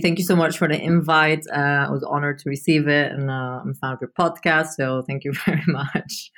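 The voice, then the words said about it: Speaks with a distinctive accent. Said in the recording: “has a very cool accent”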